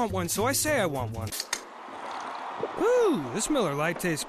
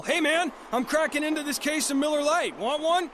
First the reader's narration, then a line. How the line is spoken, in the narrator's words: Dan shouts down the hall